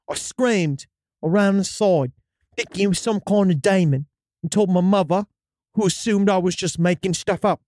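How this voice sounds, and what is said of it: Reading in a put-on accent. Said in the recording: “it almost comes across different when in that accent”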